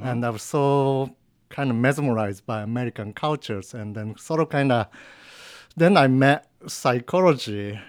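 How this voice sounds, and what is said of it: Japanese-accented English. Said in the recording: “probably you can tell from my accent that I'm not American ... I'm from Japan”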